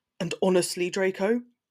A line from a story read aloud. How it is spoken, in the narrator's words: he snaps